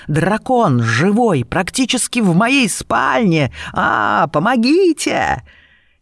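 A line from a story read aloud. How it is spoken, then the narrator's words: Hissing. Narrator (Russian): Серпопард зашипел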